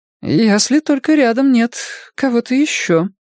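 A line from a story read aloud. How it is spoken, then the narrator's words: Uncertain suggestion. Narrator (Russian): неуверенно предположила Джеймс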